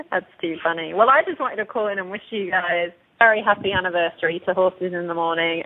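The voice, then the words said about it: English accent. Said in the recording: “you bring that English accent to the table... my accent isn't slipping... mine certainly isn't”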